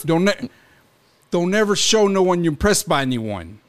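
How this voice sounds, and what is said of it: Put-on Brooklyn accent. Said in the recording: “I could totally hear a fucking Brooklyn guy saying ... Is that more of a Brooklyn accent? ... No.”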